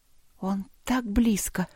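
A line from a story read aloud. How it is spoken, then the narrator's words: Whisper. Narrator (Russian): прошептала она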